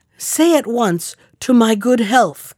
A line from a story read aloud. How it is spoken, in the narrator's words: cried the king